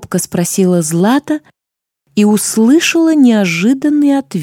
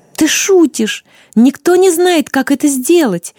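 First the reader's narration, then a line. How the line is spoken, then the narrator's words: Young woman exclaiming. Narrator (Russian): воскликнула девушка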